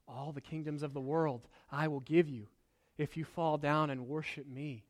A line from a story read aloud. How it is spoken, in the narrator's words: Satan whispers in his ear